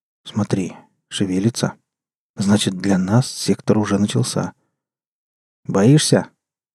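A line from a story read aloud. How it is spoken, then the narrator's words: Quiet. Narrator (Russian): тихо сказал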